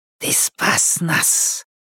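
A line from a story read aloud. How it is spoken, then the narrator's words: Hiss. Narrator (Russian): прошипела она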